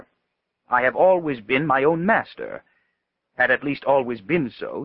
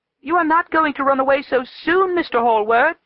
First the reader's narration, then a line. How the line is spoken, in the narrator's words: she screamed out